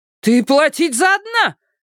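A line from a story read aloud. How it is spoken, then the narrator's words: Angry mother shouting. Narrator (Russian): гневно прокричала мама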